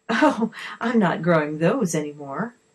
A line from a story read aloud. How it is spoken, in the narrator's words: the lady laughed